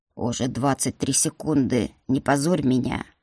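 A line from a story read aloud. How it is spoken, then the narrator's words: Menacing growl. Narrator (Russian): грозно прорычал магистр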